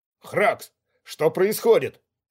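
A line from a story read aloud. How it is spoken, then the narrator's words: Barking. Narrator (Russian): рявкнул Ковальский, показываясь на пороге ванной комнаты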